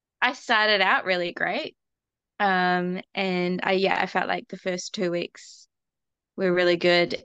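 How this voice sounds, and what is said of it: New Zealand accent. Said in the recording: “So I'm from New Zealand, so my accent's gonna be really weird.”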